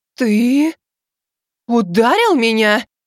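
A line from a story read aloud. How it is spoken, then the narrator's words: Trembling, disbelieving shout. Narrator (Russian): Дрожащим голосом, будто неверя, крикнула Азимандия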